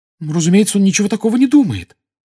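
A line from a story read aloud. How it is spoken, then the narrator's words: Excited exclamation. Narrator (Russian): с волнением воскликнула Гермиона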